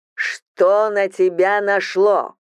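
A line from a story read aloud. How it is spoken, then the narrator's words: Loud yelling. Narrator (Russian): Он так громко орет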